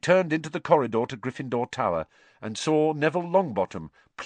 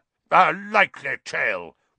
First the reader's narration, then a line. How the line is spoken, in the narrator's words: roared Sir Cadogan